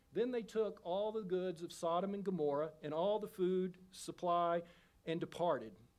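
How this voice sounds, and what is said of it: Texas accent. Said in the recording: “that Texas accent”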